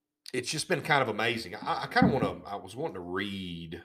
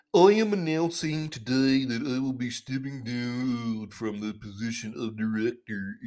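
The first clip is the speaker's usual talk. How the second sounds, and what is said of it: Imitates another person's voice. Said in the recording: “my best Anthony Fauci voice”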